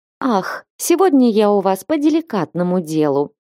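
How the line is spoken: Lady cooing. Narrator (Russian): проворковала в ответ дама

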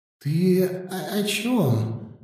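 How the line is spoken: Trembling mumble. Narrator (Russian): дрожащим голосом пробормотал

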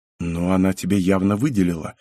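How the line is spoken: Quiet. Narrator (Russian): ответил тихо парень

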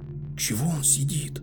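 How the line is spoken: Whispered question. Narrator (Russian): шепотом спросил Аспирин

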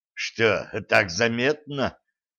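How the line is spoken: Snort. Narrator (Russian): хмыкнул Серебрянский

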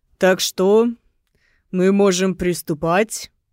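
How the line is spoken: Polite booming deep bass. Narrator (Russian): загремел вежливым низким густым басом адвокат

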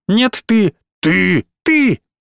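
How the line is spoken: Growling. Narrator (Russian): Два зверя, большой и маленький, рычали

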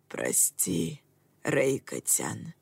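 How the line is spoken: Barely audible dying murmur. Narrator (Russian): еле слышно пробормотал умирающий священник

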